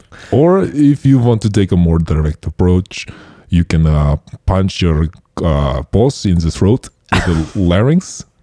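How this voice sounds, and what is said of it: Put-on accent wavering French, Russian, German. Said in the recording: “My accent seems to be going from French to Russian and German at the same time”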